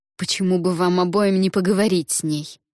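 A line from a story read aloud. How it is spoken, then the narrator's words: Through gritted teeth. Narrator (Russian): сквозь зубы ответила Фэн Чань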